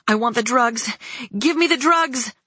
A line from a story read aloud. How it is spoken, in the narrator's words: shouted at her